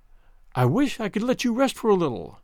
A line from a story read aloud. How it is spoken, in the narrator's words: he said tenderly